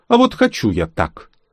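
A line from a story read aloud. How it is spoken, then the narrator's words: Smirking. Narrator (Russian): Я хмыкнул и ответил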